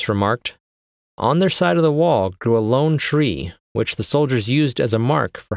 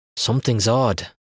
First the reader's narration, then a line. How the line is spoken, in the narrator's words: Mark muttered